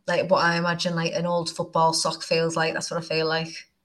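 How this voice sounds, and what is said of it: Northern English accent. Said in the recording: “in your weird northern accent”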